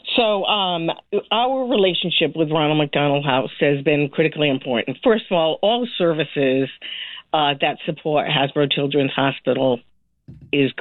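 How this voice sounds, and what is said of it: Slightly off, congested-sounding voice. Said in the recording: “I got a little cold, so please excuse my my tone ... My voice isn't quite right today.”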